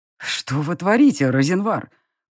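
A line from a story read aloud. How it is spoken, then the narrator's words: Through clenched teeth. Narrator (Russian): процедил фон Грейслинг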